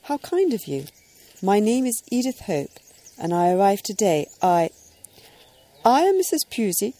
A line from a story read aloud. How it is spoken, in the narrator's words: said the lady